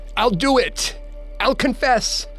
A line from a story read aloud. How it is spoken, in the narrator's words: yelped, with pain